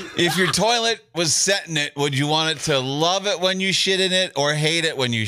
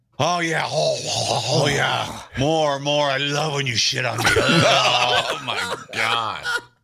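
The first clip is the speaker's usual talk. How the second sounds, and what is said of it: Comic voice impersonating a delighted toilet. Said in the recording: “my impression of a toilet loving the shit”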